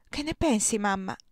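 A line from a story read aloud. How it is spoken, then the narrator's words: Timid murmur. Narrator (Italian): mormorò la timida Orga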